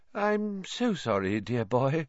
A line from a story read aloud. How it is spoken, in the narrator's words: she said dreamily